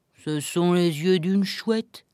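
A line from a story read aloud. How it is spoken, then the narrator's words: Sad wolf. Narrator (French): dit le loup tristement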